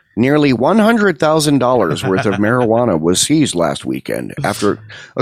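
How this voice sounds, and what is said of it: Exaggerated put-on white newscaster voice. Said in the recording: “Your white accent ... that sounds like joke white”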